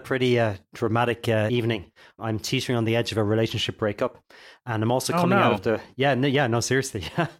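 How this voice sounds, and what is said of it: Husky, congested voice. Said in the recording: “I'm also coming out of a really bad flu, a really bad cold... you can choose to think of my voice as sounding either attractively husky or alluringly full of mucus”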